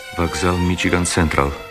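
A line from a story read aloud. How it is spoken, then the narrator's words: Very quiet, private. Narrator (Russian): сказал ему Герствуд так тихо, что Керри не могла его слышать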